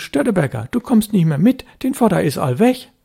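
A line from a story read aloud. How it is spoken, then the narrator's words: Fisherman calling out. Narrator (German): Jan Husten, der Elbfischer, rief ihm zu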